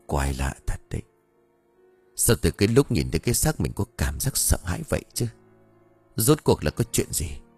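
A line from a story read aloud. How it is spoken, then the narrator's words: Man muttering. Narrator (Vietnamese): Ông lúc này lẩm bẩm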